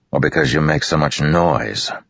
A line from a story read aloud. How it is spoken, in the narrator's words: Dalinar growled